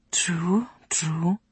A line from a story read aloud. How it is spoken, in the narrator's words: whispered the Duke